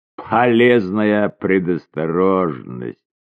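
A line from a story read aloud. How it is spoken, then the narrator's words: Chuckled. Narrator (Russian): хохотнул он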